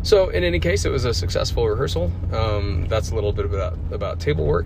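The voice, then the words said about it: Scratchy, slightly hoarse voice. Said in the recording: “my voice is a little scratchy, coming out of a little bit of a head cold ... a scratchy voice”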